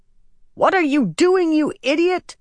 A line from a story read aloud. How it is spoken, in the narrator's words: Chesmal screeched